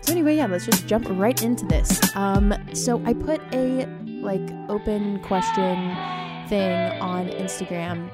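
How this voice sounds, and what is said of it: Whispering, quiet voice. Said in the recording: “I'm very anxious that everyone else in the apartment can hear me. So I don't know if I'm whispering, that's why.”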